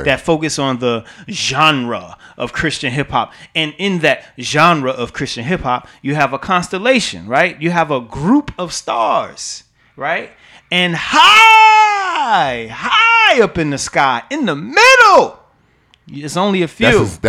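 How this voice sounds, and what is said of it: Preacher-style voice. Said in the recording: “That's his preacher voice coming out”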